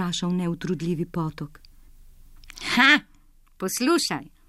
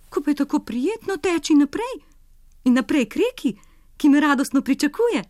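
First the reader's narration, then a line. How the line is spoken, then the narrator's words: Tireless stream exclaiming in disagreement. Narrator (Slovenian): Neutrudljivi potok se ni strinjal starim vranom in je vzkliknil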